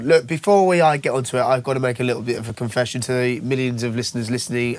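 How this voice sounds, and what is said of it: Unwell, rough-sounding voice. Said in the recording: “You sound awful.”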